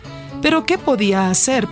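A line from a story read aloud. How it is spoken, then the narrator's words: Sad question. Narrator (Spanish): preguntó tristemente el segundo hijo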